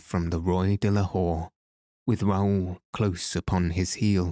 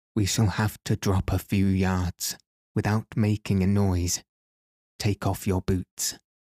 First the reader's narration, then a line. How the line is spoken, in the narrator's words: say, in a whisper